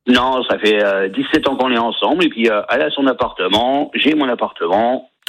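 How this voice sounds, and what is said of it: Slight regional French accent. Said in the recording (French): “avec un petit accent, qui habite à Reims, dans la région Champagne”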